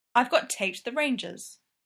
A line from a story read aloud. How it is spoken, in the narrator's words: she says